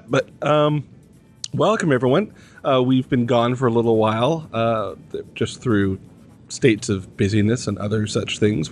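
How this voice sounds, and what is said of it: Slightly croaky, hoarse voice. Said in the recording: “I have a little frog in my throat”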